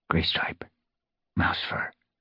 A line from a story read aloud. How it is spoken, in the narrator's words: he whispered